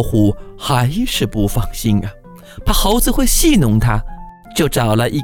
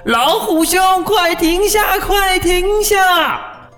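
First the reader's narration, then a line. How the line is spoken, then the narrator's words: Loud shout. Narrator (Chinese): 猴子在树上大声喊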